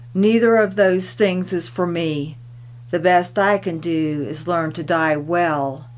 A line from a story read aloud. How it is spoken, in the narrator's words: Tilikum stated flatly with bitterness and destiny